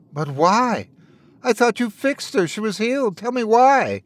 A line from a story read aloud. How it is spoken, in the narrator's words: Wendell begged